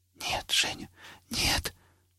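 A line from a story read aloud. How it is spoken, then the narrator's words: Whispering. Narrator (Russian): шептал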